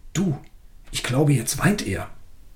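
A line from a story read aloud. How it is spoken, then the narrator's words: Excited, quiet voice. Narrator (German): aufgeregt, und leise sagte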